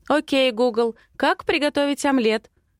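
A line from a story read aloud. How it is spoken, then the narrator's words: Loud, into phone. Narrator (Russian): Говорю громко в смартфон Матвея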